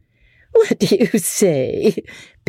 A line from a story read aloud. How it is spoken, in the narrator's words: Becky said, laughing